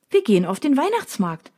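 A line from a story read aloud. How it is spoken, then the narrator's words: Cheerful announcement. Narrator (German): verkündet sie fröhlich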